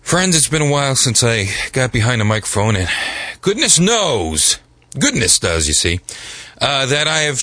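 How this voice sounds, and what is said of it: Congested voice. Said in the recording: “I don't know if my voice is going to cooperate with the show today ... I have a little bit of sinus something happening”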